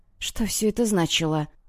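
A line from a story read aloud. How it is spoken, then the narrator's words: Near-whispered question. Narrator (Russian): почти шепотом спросила я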